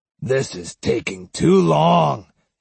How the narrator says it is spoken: he growled

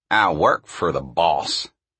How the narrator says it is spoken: he said sullenly

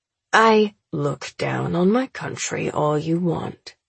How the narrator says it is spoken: he murmurs, and I see a shadow of the temper he works to keep hidden

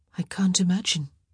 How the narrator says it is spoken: Sophie murmured

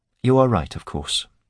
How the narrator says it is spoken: said quietly

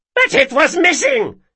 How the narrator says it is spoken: she cried

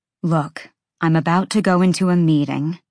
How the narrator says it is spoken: she said as evenly as she could, though she thought she might puke

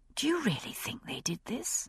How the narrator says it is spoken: I asked, equally softly

